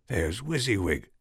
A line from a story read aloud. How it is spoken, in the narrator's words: she whispered to Darcy